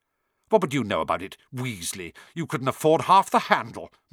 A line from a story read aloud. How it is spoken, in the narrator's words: Malfoy snapped back